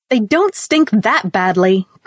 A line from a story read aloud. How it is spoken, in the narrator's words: cried Ruth bitterly